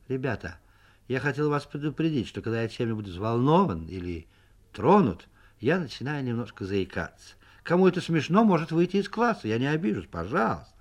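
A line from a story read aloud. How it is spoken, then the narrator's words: Calm, slightly embarrassed. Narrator (Russian): писатель слегка покраснел и сказал нормально и спокойно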